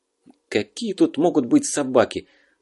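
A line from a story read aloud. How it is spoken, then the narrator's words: Angry, spitting. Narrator (Russian): Зло сплюнул Зверев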